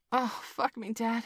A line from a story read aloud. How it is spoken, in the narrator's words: panted